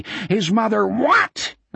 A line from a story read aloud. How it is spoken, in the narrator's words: Osmond screamed again